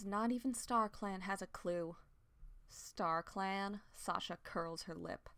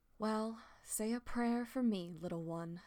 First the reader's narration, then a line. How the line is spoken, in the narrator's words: Sasha sighed